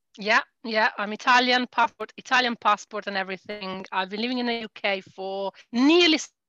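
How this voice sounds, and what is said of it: Italian accent. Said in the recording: “from your accent ... you are originally Italian”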